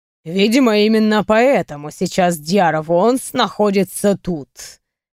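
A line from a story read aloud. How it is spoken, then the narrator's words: Smirking. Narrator (Russian): хмыкнул Кьяр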